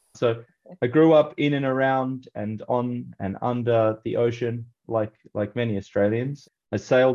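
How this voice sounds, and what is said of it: Australian accent. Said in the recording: “I grew up in Australia, as you can probably hear in my accent”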